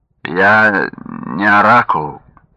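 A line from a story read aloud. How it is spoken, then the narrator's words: Lazy reply. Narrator (Russian): ответил он лениво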